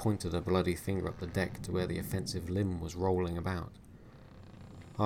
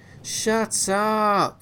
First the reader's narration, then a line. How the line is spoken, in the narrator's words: he shouted for the umpteenth time